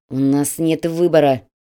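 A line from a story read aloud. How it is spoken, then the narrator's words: Instructor speaking through teeth. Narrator (Russian): процедил инструктор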